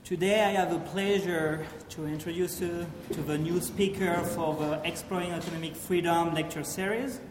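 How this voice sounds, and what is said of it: French accent. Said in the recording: “a French accent”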